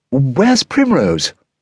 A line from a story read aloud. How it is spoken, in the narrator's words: Lady Woodmouse cried out in alarm